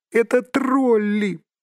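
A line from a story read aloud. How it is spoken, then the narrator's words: Squeaked. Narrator (Russian): пискнул Бильбо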